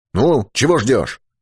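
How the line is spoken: Irritated snap. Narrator (Russian): раздраженно прикрикнул Юрковский

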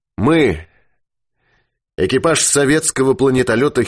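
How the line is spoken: Solemn, loud, clear proclamation. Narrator (Russian): Ермаков торжественно, громко и ясно провозгласил

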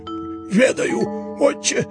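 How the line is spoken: Wheezing. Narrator (Russian): просипел Еропкин

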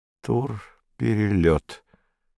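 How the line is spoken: Slow, surprised. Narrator (Russian): медленно, словно удивляясь, проговорил незнакомец

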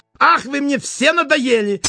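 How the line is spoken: Angry exclamation. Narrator (Russian): сердито воскликнул он

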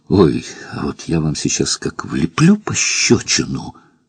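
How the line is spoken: Weak-voiced threat. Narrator (Russian): пригрозила она слабым голосом

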